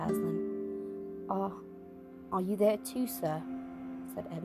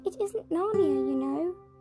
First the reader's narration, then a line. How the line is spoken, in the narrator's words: sobbed Lucy